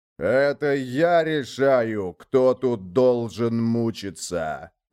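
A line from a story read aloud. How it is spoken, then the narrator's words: Underworld lord's roar. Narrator (Russian): взревел владыка Нижнего мира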